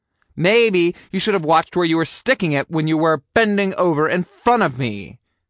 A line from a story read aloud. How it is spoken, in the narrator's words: I snapped